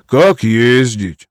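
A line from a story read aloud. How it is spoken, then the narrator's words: Sigh. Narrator (Russian): вздохнул Петруха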